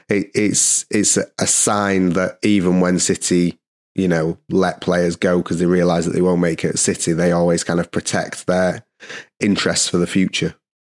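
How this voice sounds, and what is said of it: Strained, failing voice. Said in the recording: “my voice is dying.”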